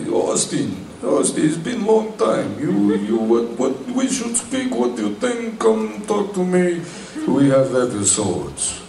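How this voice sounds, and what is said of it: Slow Israeli accent impression. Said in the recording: “they have very typical, you know, Israeli, very slow, you know, accent. That's more Russian”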